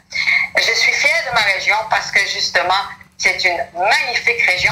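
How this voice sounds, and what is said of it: Acadian French accent. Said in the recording (French): “Si vous m'entendez parler, vous avez un ... Accent. ... Et cet accent-là, ben, ça me reflète, ça me caractérise. Je suis acadienne”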